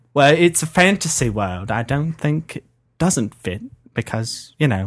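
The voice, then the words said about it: Put-on British accent. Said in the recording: “country British angry drunk guy ... in your British voice”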